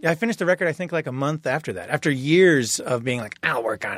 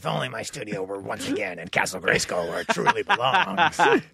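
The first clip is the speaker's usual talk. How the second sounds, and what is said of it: Skeletor-like villain character voice. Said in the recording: “that's how I talk when I'm home in my skeletal voice”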